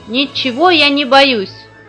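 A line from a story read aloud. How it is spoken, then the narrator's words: Loud shout. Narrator (Russian): крикнул он на весь лес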